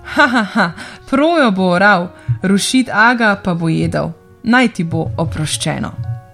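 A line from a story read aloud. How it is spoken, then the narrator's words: Laughing while speaking. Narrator (Slovenian): Tedaj se je Rošit Aga nasmejal rekoč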